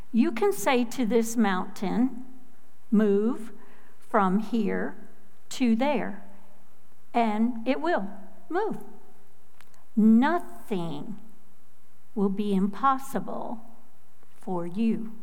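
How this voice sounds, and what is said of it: Midwestern American accent. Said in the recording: “you can probably tell from my accent, I was born in Minnesota to Midwestern parents”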